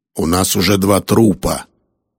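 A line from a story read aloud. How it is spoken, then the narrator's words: Grumble, restrained anger. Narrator (Russian): проворчал Кирби, изо всех сил сдерживая, чтобы сдержать гнев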